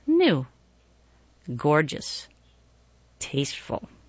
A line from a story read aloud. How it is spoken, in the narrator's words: the place murmured